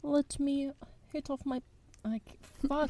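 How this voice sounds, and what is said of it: Failed attempt at English accent. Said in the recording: “that was my attempt at an English accent. ... I failed.”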